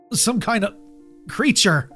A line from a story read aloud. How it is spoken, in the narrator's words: choked out, still struggling to catch my breath